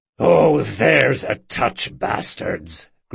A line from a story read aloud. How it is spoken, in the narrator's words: growled Bertrand